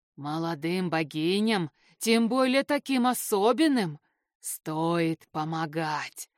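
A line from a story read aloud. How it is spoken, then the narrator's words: Dragon's pleased hiss. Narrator (Russian): довольно прошипел дракон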